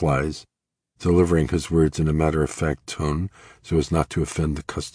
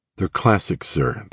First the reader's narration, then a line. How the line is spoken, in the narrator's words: the clerk says dryly